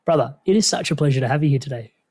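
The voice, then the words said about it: Speaks with a noticeable accent. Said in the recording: “with your accent, it just sounds even cooler”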